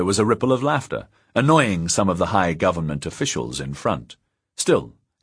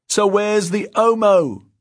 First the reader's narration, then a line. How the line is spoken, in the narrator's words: someone shouted